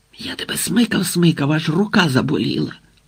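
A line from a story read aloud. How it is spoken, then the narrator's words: Whispered. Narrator (Ukrainian): пошепки сказав Грицик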